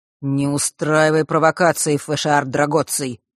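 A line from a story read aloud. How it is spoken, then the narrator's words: Cold male voice. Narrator (Russian): холодно произнес он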